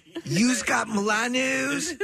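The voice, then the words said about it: Imitated South Philly accent. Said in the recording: “this real South Philly lady ... That's maybe one of the most concise examples of the accent.”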